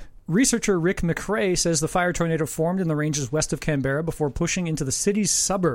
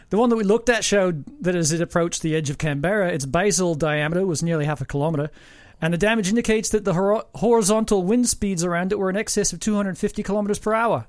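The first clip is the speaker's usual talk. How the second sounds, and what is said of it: Put-on Australian accent. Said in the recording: “Oh, time for Australian accent. ... God, I haven't done one in so long.”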